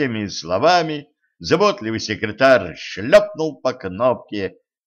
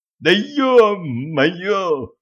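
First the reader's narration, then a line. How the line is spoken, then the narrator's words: Howl. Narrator (Russian): взвыл мгновенно переставший икать Пьер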